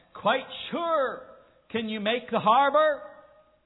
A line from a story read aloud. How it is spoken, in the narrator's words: the lighthouse keeper shouted back